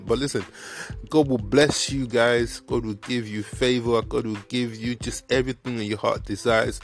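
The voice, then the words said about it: Put-on Nigerian accent. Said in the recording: “let me switch to my to my Nigerian accent.”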